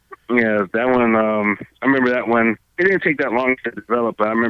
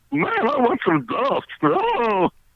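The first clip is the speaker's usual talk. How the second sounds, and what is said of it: Strained cartoon character voice. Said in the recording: “one of the hardest voices for me to do was Barney Gumble from The Simpsons ... it used to hurt doing that voice”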